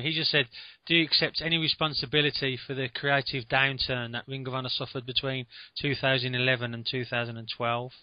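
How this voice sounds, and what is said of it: Strong regional accent. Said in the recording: “I lost you around the bin because of your accent ... Just a little slower.”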